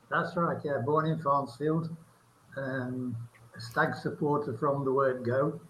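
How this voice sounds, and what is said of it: English regional accent. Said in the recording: “People will be able to tell from the accent that, you know, you're not a native to Brazil”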